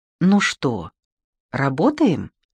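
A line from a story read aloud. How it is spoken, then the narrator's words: Tender female host. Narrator (Russian): Все так же нежно, как прежде, уточнила ведущая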